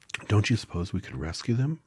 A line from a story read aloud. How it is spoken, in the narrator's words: asked the girl anxiously